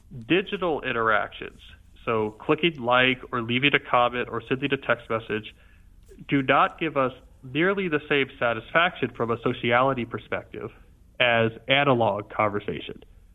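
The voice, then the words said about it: Congested voice from a cold. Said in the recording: “you seem like you have a cold. Do I have that right? ... you can tell that I have a cold.”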